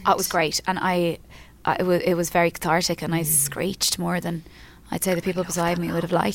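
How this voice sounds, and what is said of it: Hoarse voice. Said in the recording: “I'm a bit hoarse today. I went to Mariah Carey last week... I screeched so much.”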